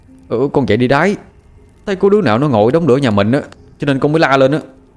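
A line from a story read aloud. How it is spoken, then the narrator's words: Annoyed child answering. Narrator (Vietnamese): Bị bố quát tôi cũng cáu, cho nên trả lời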